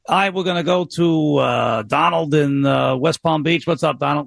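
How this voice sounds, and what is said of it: Imitates a sports radio host's voice. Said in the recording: “did a Francesa impersonation ... I've been doing Francesa.”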